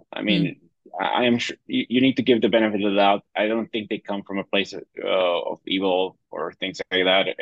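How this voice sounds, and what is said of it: Non-American English accent. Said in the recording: “when you hear my accent, it's like you were not going to assume that this guy was born in Chattanooga, Tennessee”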